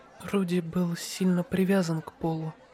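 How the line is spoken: Soft girl's whisper. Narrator (Russian): мягко прошептала девочка из демонической расы с синими волосами, Рокси Мигурдия

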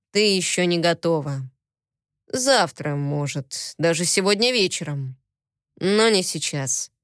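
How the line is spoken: Quiet. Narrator (Russian): негромко сказал он

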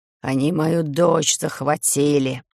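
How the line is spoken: Vampire rasping hoarsely. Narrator (Russian): хрипит вампир

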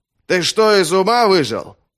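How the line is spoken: Shouted. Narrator (Russian): крикнул Финиус

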